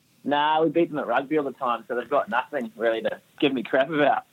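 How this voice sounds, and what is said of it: New Zealand accent. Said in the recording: “a great Kiwi accent ... this beautiful accent of yours ... Are you Kiwi or are you Aussie?”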